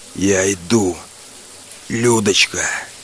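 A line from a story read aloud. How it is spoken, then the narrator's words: Hoarse wheeze. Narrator (Russian): хрипел я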